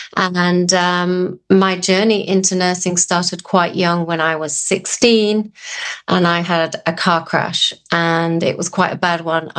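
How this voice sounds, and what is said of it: English accent. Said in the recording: “as you can tell from my accent, I'm not from these parts, but I started life over in England”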